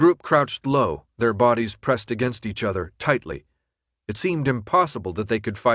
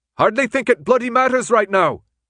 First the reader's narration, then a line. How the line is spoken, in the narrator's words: Newt shouted back